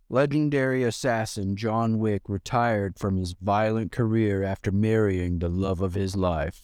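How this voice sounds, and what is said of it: Movie narrator voice. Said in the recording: “What's up with your voice? ... Is that your narrator voice? ... That's my narrating voice.”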